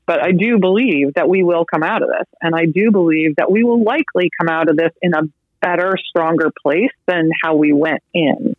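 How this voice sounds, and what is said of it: Choked up, emotional voice. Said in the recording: “little choked up”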